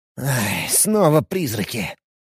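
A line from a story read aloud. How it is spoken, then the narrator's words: Irritated mutter. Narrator (Russian): Раздраженно буркнул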